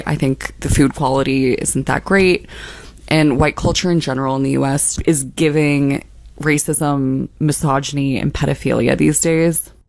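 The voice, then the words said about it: Lisp with creaky vocal fry. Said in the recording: “just that lisp, that that white girl vocal fry”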